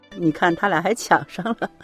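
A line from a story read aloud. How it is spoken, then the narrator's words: Laughing. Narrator (Chinese): 旁边的领导笑着说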